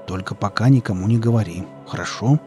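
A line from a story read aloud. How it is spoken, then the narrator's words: Quiet request. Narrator (Russian): тихим голосом попросил Велес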